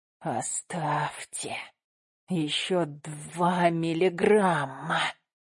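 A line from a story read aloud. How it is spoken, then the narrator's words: Jerky wheezing inhuman speech. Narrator (Russian): Речь, толчками пополам с хрипом, речь, в которой уже нет ничего человеческого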